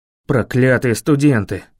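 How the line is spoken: Growling. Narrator (Russian): прорычал тот

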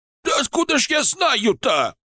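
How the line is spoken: Shouted again. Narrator (Russian): снова выкрикнул Сойкин

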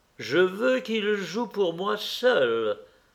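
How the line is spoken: Smiling exclamation. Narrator (French): s'écria Lord Henry souriant

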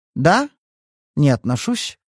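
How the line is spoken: Calm reply. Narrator (Russian): спокойно отозвалась Кейт

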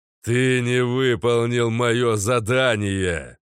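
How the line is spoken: Quieter growl. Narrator (Russian): Рыкнул, но гораздо тише

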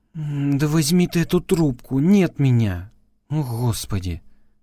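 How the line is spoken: Groaning. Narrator (Russian): Застонала Элла

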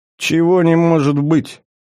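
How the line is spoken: King's irritated snort. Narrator (Russian): раздраженно фыркнул король

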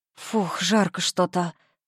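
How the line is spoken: Muttered. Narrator (Russian): пробормотала

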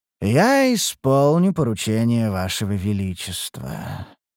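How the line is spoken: Sighing. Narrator (Russian): вздохнул придворный чародей

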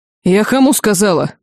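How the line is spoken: Angry roar. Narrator (Russian): злобно взревела Нельма

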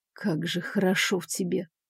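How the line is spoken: Muffled murmur between kisses. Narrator (Russian): пробормотал мне в шею между поцелуями

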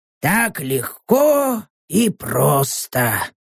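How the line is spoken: Whisper. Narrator (Russian): прошептал Норм

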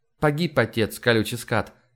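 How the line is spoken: Calm. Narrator (Russian): спокойно ответила Вера

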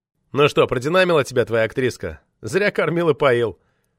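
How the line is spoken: Amused snort. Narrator (Russian): хмыкнул Лёва

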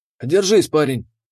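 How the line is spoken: Hoarse but firm. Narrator (Russian): Его голос был хриплым, но на удивление твердым

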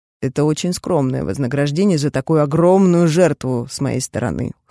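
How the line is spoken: Snorting remark. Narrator (Russian): хмыкнул

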